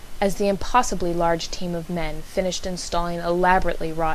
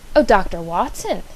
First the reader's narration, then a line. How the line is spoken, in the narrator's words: she exclaimed